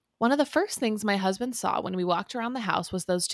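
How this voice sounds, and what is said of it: Usual voice. Nothing is said of it.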